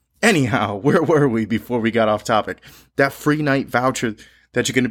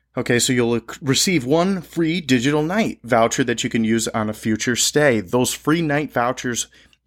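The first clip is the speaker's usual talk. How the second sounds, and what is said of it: Talking too fast, excitable. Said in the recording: “I'm talking too fast. I'm getting a little rambunctious.”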